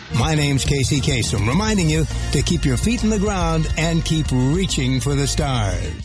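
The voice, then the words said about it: Smooth radio announcer voice. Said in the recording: “my radio voice”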